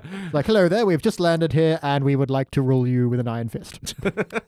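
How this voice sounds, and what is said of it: Put-on British accent. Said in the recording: “I'm British. ... that British man ... with that accent”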